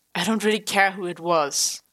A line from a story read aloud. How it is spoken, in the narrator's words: Tommy sighed